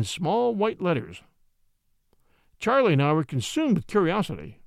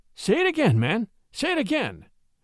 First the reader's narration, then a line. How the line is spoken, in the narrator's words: Charlie exclaimed in an excited voice